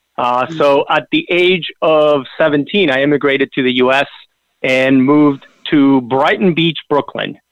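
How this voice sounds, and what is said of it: Argentine-accented English. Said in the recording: “I was actually born and raised in the South. You can probably tell from my accent, but I'm talking about way south in Argentina.”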